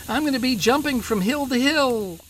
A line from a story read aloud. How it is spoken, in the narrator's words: He dropped the bag in fear, ran to the door, and shouted